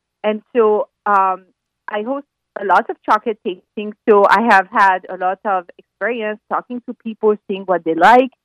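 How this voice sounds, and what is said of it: French accent. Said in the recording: “you have an accent. ... I'm from France.”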